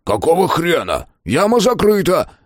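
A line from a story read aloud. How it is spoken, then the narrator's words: Barking fat man. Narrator (Russian): рявкнул толстяк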